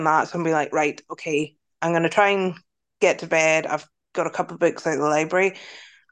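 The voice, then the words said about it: Scottish accent mixed with Northern Irish. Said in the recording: “Where's your accent from? ... Scotland. ... But I live in Northern Ireland now ... you probably have like a mix at this point.”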